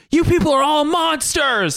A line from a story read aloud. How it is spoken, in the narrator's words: screamed